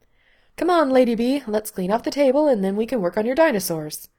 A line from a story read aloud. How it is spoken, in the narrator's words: Lindsay said cheerfully